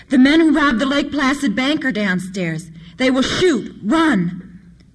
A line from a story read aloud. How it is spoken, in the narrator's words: Regardless of the circumstances, leaned far out as he dared and shouted wildly